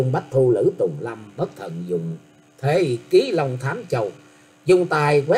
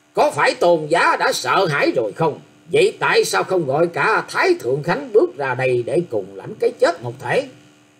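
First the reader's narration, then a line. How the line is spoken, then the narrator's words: Stern harsh shout. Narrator (Vietnamese): Đôi mắt của Thang Tiểu Nhàn sáng quắc ra đầy vẻ uy nghi, gằn giọng quát rằng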